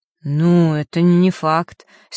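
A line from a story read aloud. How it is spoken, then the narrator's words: Doubtful drawl. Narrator (Russian): с недоверием протянул Ник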